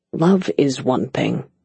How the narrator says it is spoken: he muttered

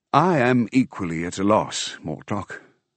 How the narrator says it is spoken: I said wearily

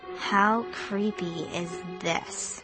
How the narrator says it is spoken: Sabrina murmured

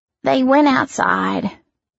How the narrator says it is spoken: she murmured

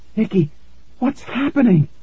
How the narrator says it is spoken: Tara gasped

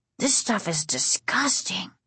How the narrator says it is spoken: Casey whispered

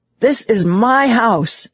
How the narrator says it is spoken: shouted down the cellar stairs

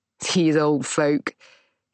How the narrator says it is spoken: he laughs

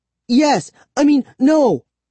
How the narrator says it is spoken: I stammered

